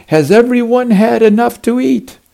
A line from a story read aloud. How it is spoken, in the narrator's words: Jesus shouting